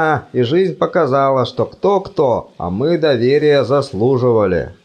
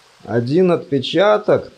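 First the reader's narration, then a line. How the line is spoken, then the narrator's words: Groaning. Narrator (Russian): простонал декан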